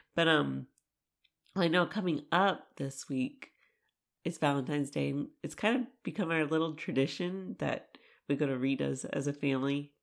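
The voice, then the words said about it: Hoarse, mostly lost voice. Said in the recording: “my voice is still gone”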